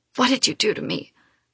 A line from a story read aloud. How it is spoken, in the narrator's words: I croak, my voice hoarse